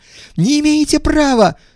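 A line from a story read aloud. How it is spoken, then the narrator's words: Shriek. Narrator (Russian): завизжал Иванов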